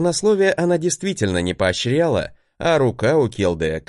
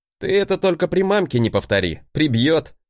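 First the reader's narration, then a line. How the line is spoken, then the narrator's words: Chuckling. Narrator (Russian): хохотнул я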